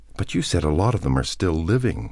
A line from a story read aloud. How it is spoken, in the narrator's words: she said nervously